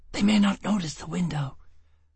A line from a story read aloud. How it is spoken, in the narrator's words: Gisbella hissed